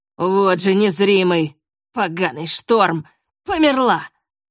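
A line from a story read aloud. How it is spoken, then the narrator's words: Loud call. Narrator (Russian): Он громко позвал кого-то с верхней палубы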